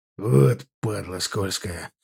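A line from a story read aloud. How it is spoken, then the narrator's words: Hissed. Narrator (Russian): прошипел Тургулаев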